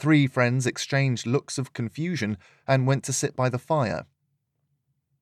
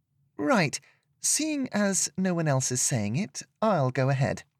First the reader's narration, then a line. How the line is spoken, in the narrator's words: Serena piped up